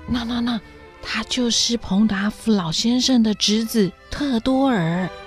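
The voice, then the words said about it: Soft, hushed whispering voice. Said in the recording (Chinese): “罗莎莉小声地说”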